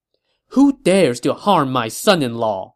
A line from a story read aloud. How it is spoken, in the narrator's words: Madame Wu said angrily